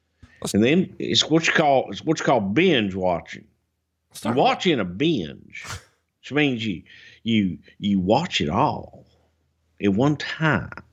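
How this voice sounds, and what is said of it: JR crossed with Elmer Fudd impression. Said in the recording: “your JR impression? ... That's a cross between JR and fucking, I don't know, Elmer Fudd.”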